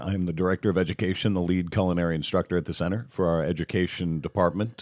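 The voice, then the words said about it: Smooth radio-style voice. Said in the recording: “a beautiful, a beautiful radio voice.”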